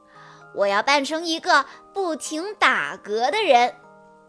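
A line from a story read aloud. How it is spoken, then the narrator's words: Laughing. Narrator (Chinese): 丹尼笑着说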